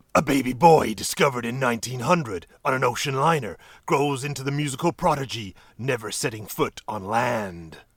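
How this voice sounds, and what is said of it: Dramatic movie-trailer narrator voice. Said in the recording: “I'll do it in a movie voice, actually.”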